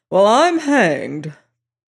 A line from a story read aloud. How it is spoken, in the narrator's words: Headland exclaimed loudly